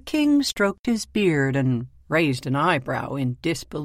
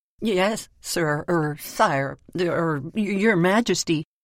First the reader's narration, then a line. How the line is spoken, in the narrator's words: he stammered, for the thought of spending days locked up in the stocks or in the king's prison did not appeal to him